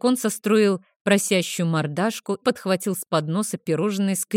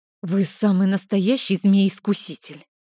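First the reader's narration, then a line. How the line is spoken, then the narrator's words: Helpless moan. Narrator (Russian): Беспомощно простонала я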